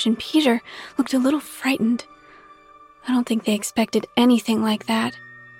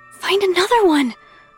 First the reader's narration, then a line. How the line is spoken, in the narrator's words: Carly exclaimed in a hushed command